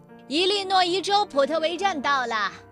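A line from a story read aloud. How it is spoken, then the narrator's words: Shouting. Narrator (Chinese): 有人大喊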